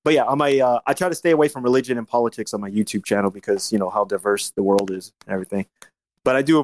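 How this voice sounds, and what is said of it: Usual voice. Nothing is said of it.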